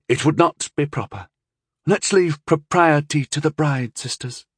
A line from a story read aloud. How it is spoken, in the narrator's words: he began softly, but uneasily